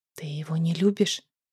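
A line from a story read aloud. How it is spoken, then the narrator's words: Chilled whisper. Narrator (Russian): прошептала я, чувствуя, как по спине пробежал холодок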